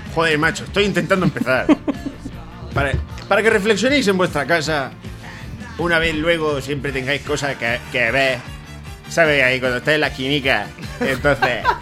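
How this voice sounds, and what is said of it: Put-on Murcian Spanish accent. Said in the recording (Spanish): “Es un poco murcianico. ... El acento murcianico. ... Este es mi acento. No, se me ha ido ya otra vez.”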